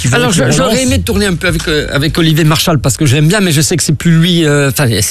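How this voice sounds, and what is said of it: Corsican French accent. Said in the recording (French): “quelqu'un qui a un accent corse ... on me demandait de perdre mon accent ... je t'ai demandé de perdre ton accent”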